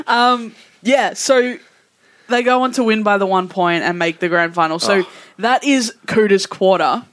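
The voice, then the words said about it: Strong Australian accent. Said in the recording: “I said that with such an Aussie accent.”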